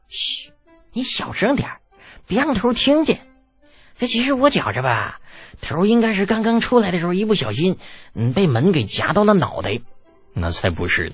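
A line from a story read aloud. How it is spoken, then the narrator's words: Secretive whisper. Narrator (Chinese): 另有一人……悄咪咪的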